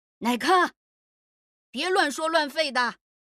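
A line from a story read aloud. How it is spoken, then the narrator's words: Shouting. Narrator (Chinese): 郑白大声喊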